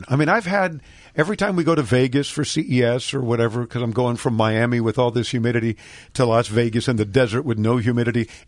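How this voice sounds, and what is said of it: Hoarse, laryngitic voice. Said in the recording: “I wish somebody would solve my vocal cord dilemma... I'll just have terminal laryngitis... immediately goes right to my throat, dries me out, and I have a laryngitical delivery”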